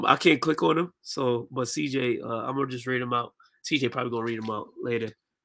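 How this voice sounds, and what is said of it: Hoarse voice. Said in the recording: “My voice a little hoarse.”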